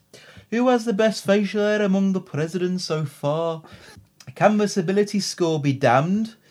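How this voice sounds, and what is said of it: Put-on Liverpudlian accent. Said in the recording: “That's all more Liverpudlian.”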